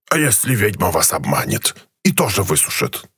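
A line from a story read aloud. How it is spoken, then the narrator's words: Creaky voice. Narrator (Russian): проскрипел граб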